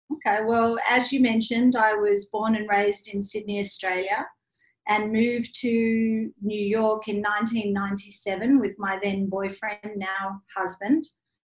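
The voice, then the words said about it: Australian accent. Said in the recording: “can hear that nice Australian accent”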